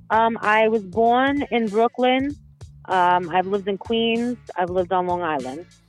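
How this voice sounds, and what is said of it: New York accent. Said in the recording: “You got the great accent. When you said it, I was like, oh, that's definitely 100% New Yorker.”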